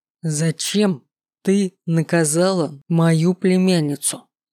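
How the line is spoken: Growled through gritted teeth. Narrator (Russian): Едва ли не кроша зубами каждое слово, прорычал Ультер

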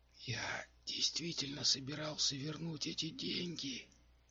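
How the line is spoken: Whispering. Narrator (Russian): прибавил шепотом отшельник

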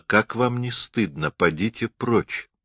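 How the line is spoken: Woman speaking quietly. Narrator (Russian): эта женщина тихо сказала

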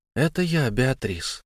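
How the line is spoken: Trembling. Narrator (Russian): дрожащим голосом ответила

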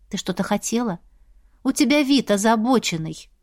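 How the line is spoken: Soft, gentle question. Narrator (Russian): мягко спросила, пытаясь вернуть подругу с небес на землю

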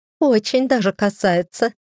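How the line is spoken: Giggling. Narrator (Russian): хихикнула Фредерика

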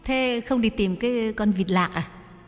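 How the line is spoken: Smiling question. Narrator (Vietnamese): Nhài mỉm cười hỏi

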